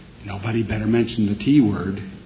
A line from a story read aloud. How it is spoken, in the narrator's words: she whispered